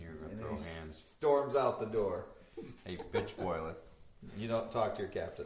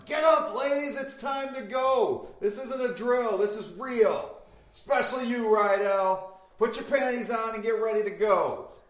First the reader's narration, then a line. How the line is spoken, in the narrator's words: your Captain Bronson is walking through the room yelling